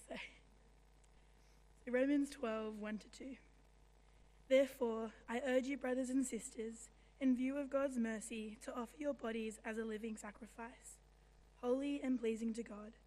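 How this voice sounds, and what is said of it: Hoarse, strained, weak voice. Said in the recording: “I have lost my voice”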